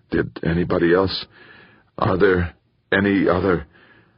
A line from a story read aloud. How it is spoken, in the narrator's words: Raising his head anxiously, Bracknell asked